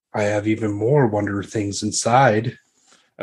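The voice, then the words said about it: Sly character voice. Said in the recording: “in that sly voice”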